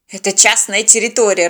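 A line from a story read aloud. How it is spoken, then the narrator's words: Irritated dispatcher. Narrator (Russian): раздраженно сообщил диспетчер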